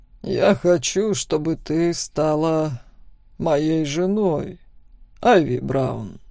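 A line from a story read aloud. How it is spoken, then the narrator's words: Calm. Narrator (Russian): спокойно произнес он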